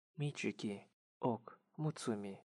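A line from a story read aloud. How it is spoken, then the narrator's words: Soft whisper. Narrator (Russian): она тихо прошептала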